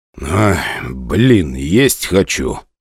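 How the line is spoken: Whisper. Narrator (Russian): шепнул мне Морозов

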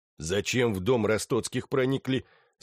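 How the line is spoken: Plain. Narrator (Russian): спросил Терлецкий

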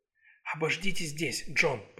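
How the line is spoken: Whisper. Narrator (Russian): прошептала

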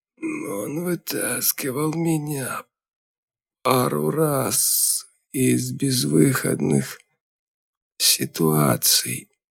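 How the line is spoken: Hoarse wheeze. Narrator (Russian): просипел полковник

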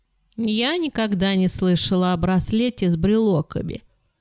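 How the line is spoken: Sleepy. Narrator (Russian): сонно сказала Фиби

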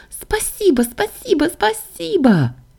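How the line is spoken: Excited squeal. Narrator (Russian): завизжала Саша

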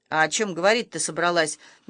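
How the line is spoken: Rude snort, tree stump. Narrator (Russian): невежливо фыркнул пень

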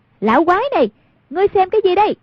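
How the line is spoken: Loud cry. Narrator (Vietnamese): Hoàng Dung lớn tiếng kêu lên

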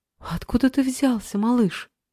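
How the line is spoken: Joyful exclamation. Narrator (Russian): радостно воскликнула Алиса

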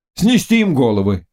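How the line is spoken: Crowd shouting. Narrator (Russian): кричали они

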